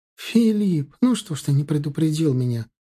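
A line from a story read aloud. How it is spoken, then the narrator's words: Embarrassed exclamation. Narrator (Russian): воскликнула она, краснея на глазах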